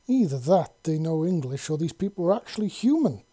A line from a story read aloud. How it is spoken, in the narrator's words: Lisa exclaimed